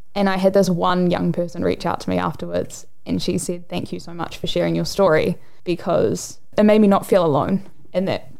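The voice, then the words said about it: Emotional, choked-up voice. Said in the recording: “Sorry, I know I'm getting emotional”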